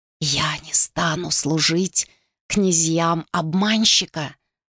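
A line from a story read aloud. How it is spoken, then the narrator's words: Whispered declaration. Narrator (Russian): шепотом заявила она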